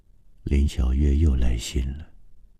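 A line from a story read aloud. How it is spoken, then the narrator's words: Soft-spoken. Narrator (Chinese): 郑川在他的背后轻声说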